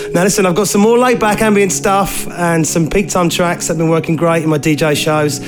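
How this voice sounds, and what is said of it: Croaky, hoarse voice. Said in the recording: “I sound a little croaky. ... I think I've got a bit of the seasonal flu”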